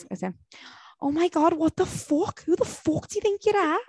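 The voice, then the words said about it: Put-on regional accent. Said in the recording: “With the Ancandous guy's accent”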